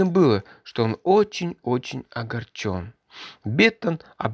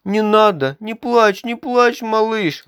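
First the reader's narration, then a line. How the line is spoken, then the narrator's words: Flustered, repeating, boss. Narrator (Russian): растерянно повторял босс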